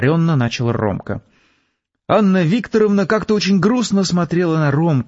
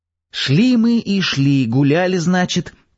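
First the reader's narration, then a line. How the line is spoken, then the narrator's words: Painfully slow storytelling. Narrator (Russian): томительно медленно рассказывал Ромка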